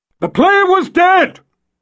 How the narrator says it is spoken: Jagang yelled

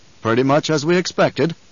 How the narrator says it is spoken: Leto said

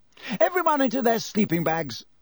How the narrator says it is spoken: shouted Percy

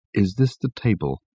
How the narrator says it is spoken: he asked Richard in a low voice

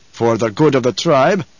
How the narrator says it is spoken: Stilgar growled

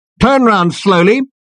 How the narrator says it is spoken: barked the voice

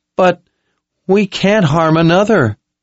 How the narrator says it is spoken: Owen whined

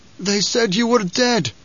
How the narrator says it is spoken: Gurney rasped

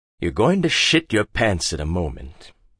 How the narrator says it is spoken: Hagbard said coldly

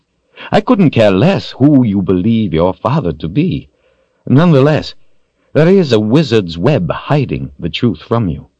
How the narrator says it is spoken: Rawl laughed

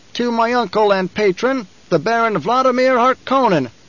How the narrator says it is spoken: Fade Rotha shouted

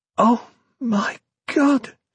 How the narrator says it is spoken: she exclaimed

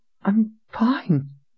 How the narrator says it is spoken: Darby said in a shaky voice

